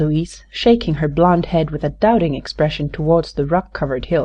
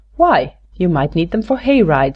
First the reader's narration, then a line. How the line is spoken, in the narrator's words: remarked Patsy with a laugh